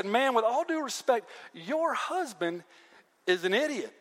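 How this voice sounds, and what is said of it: Put-on Southern accent. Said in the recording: “I like to imagine Nabal's servant with a southern accent.”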